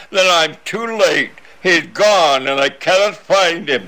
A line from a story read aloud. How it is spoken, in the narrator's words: poor James as he moans